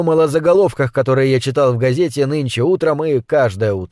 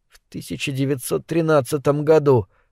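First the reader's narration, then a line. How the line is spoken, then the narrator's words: Remembering whisper. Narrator (Russian): прошептал, что-то вспомнив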